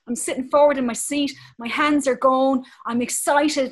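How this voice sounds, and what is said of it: Animated Irish accent. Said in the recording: “this is how Irish people talk. I'm really animated and passionate because I'm Irish ... an Irish accent”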